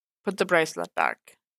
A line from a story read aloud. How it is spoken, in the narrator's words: Matt suggested